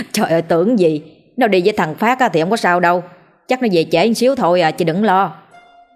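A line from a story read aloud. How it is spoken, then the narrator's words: Laughing, reassuring. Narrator (Vietnamese): Ông Hòa nghe nói đến Phát thì bật cười trấn an chị mình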